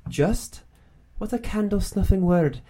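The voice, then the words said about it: Put-on Scottish accent. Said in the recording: “that's my Scottish accent ... It's my brogue.”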